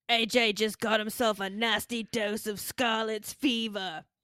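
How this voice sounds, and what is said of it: Imitates another person's voice. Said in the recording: “a really good Wade Barrett impression. 10 of 10.”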